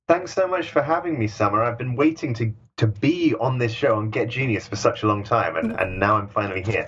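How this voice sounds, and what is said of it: British accent. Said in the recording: “He's got a great British accent”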